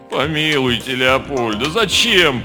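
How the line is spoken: Moaning. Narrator (Russian): простонал Слава

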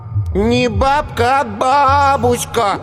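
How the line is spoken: Instructive child's drawl. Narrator (Russian): назидательно протянул Коленька

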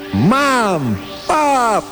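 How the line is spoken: Shouting with full force. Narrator (Russian): крикнул он изо всех сил

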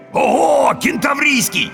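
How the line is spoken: Ecstatic yelling. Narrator (Russian): восторженно завопил первый

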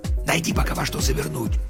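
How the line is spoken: Whispered. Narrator (Russian): прошептал он

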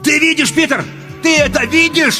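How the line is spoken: Shout. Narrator (Russian): кричал

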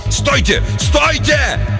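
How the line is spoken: Yell. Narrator (Russian): он заорал

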